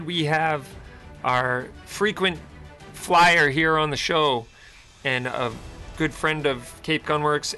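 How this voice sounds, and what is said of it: Hoarse voice. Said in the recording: “you sound a tad hoarse. Take care of that throat. ... I am a little hoarse today”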